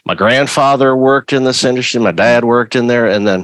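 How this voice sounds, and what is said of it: Slips into a Southern accent. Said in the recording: “I went into the Southern accent. ... sometimes I slip into it”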